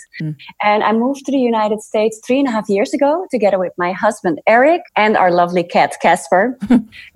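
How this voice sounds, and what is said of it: Slight Dutch accent. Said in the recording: “I have a bit of an accent. Yeah, I am of Dutch descent.”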